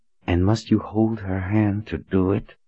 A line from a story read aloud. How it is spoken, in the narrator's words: She growled under her breath